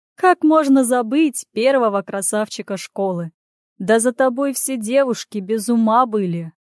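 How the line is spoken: Loud declaration. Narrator (Russian): громко заявляю я

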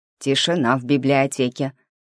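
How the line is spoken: Stern demand. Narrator (Russian): строго потребовали они

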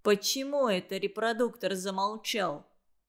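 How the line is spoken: Stern commanding question. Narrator (Russian): Строгим, начальственным тоном спросил, наконец, Ленька

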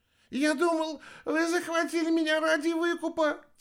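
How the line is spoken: Babbling. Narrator (Russian): лепетал китаец

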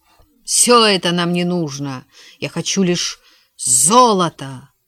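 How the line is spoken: Shouting. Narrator (Russian): он закричал озадаченным сообщникам

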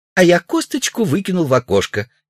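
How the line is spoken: Cheerful recitation. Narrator (Russian): весело процитировала Шурочка

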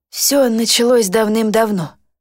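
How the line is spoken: Dull, muffled voice. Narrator (Russian): произнесла она глухо

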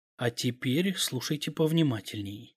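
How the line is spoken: Calm. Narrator (Russian): спокойно произнес я

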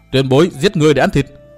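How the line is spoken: Cold loud shout. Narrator (Vietnamese): Từ Mã Minh lạnh lùng hét to

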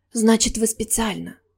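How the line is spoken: Quiet. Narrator (Russian): тихо проговорила я

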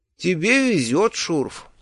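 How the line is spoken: Tired, smiling. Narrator (Russian): устало улыбнулся я

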